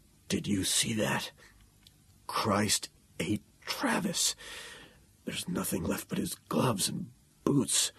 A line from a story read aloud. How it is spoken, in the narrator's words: Elms whispered